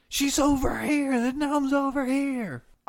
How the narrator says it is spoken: he yells

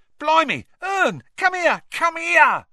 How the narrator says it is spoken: Stan shouted

